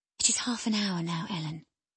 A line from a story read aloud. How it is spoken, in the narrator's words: she whispered in my ear at last